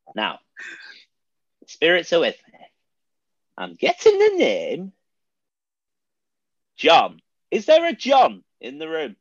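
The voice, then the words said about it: Impression of a comedy character's voice. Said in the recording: “do your Clinton Baptiste impression ... So good, man.”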